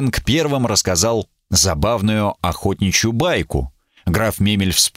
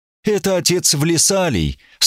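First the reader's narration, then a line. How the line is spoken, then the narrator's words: Sad. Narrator (Russian): сказал Катфаэль печально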